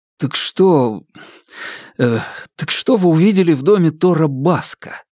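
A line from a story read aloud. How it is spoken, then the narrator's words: Breathed out. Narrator (Russian): выдохнул Джим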